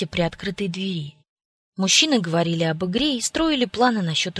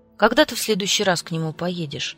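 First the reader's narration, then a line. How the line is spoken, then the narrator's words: Casual, careful inquiry. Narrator (Russian): почти будничным тоном осведомился Чарли, стараясь не вспугнуть мое настроение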